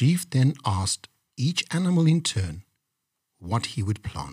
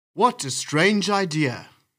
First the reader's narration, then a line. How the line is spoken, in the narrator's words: exclaimed the chief in surprise